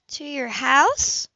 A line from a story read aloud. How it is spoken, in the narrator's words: Libby replied warmly